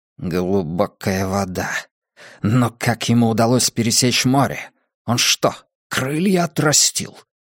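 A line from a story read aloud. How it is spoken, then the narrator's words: Barely audible mutter. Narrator (Russian): Еле слышно пробормотал Ледяной Песок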